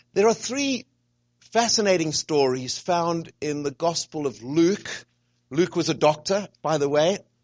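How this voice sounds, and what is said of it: Noticeable accent, hard for some. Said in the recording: “You're understanding my accent? ... Some people prefer not to understand my accent”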